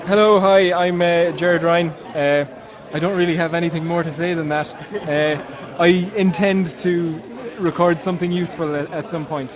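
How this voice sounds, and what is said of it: Irish accent. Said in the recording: “It sounds like maybe an Irish accent.”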